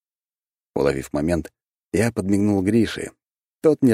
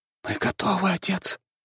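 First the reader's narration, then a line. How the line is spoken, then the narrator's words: Quiet. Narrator (Russian): тихо сказал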